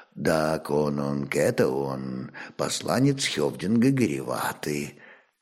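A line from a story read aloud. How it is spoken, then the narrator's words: Quiet. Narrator (Russian): тихо молвил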